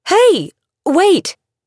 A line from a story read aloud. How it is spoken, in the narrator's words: Camilla, who called out